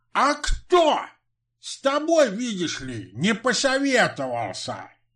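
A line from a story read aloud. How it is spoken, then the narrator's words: Barked. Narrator (Russian): гаркнул Митрофан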